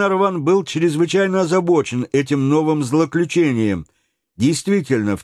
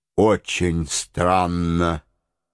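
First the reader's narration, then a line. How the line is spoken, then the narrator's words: Mutter. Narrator (Russian): пробормотал майор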